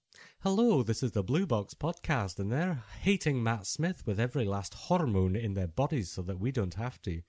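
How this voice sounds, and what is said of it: Put-on Scottish accent. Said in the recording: “Was that a Scottish accent? ... I think it was too bad ... Are you saying I should stop with the accents?”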